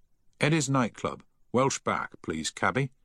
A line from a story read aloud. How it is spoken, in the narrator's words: he said firmly